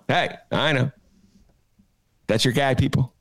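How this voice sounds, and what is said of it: Imitates a comedian's voice. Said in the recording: “my imitation of another comedian... That shows you how good that imitation is”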